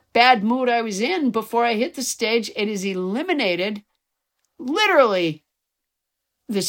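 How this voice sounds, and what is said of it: Usual voice. Nothing is said of it.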